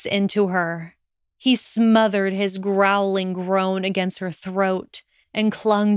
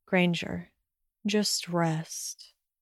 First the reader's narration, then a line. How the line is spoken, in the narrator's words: told her softly